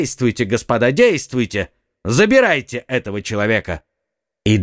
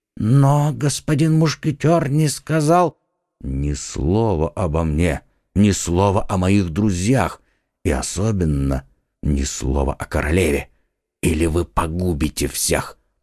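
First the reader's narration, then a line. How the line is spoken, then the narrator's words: Whispered. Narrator (Russian): прошептал Д'Артаньян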